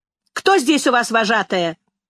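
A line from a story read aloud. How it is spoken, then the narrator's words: Shout. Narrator (Russian): закричал человек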